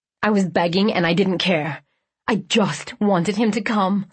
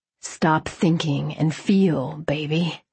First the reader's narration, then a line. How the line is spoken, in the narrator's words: he murmured